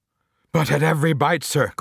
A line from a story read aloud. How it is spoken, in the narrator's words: cried the nearest oarsman